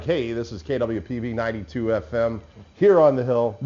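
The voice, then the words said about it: Announcer-style radio voice. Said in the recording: “That radio voice... you got a good radio voice”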